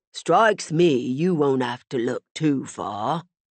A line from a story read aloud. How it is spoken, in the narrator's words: Walter said slowly